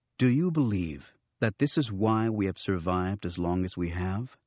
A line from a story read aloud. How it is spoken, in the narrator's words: Luke interrupted calmly